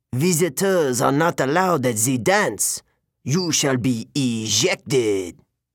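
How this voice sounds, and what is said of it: Snapping voice with French accent. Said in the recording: “the man snapped ... He had an accent. French, maybe. He pronounced his J like in Jacques.”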